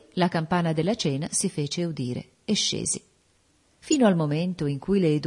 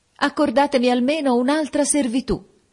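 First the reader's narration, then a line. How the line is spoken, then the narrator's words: Near-desperate woman's shout. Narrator (Italian): quasi disperata, gridai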